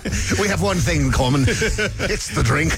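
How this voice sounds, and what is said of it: Put-on Scottish accent. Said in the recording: “Thank you for doing the Scottish accent there.”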